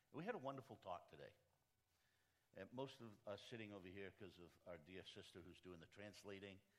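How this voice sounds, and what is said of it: Northeastern US accent, fast speech. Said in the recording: “I talk kind of fast. I've got a little bit of a Northeast accent. I say words different than most of you in this room.”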